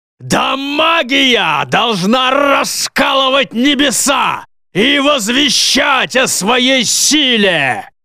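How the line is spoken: Very loud growl, dark sorcerer. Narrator (Russian): снова прорычал темный колдун настолько громко, что тело Альфреда само собой задрожало

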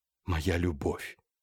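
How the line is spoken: Entranced whisper. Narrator (Russian): завороженно прошептал

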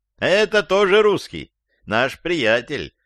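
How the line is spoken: Joyful shout. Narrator (Russian): крикнул Юрий Антонович

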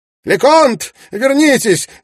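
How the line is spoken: Shout. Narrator (Russian): крикнул Ноэль Ванстоун

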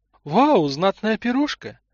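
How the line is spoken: Exclamation. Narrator (Russian): воскликнула Тамара

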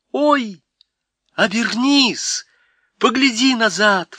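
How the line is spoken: Exclaiming. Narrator (Russian): воскликнула Полли

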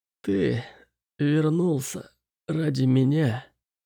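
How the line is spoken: Very quiet. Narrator (Russian): Так тихо, что мне пришлось наклониться, чтобы расслышать

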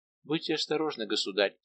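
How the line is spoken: Quiet. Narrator (Russian): тихо сказала ему Генриетта

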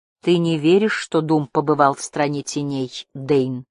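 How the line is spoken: Plain. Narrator (Russian): спросил он

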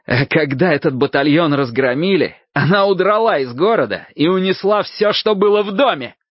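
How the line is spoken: Loud shouting. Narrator (Russian): я уже здорово орал

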